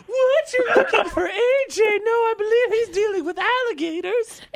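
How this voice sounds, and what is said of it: Unconvincing fake disguise voice. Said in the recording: “My fake voice, too ... that voice, you're like, something doesn't add up here”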